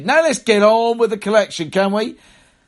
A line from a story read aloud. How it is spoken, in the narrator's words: A man shouted